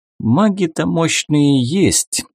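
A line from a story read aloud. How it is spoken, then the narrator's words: Sighing. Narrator (Russian): вздохнул Дебор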